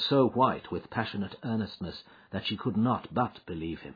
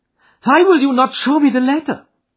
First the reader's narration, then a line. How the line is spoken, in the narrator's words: she cried